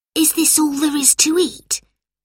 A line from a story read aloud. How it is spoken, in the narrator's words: whispered Robert to Lucy